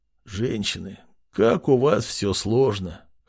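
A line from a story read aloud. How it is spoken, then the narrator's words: Hoarse, barely alive young man. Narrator (Russian): хриплым голосом проговорил едва живой парень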